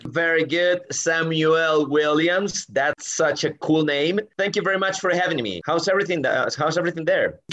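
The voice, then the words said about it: American English accent. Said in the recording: “speaks American English and he's got an American accent”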